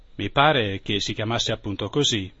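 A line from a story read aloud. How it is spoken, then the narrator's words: Plain. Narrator (Italian): rispose papà Catrame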